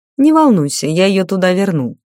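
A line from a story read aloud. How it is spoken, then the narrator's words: Knowing snort. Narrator (Russian): понимающе хмыкнул маг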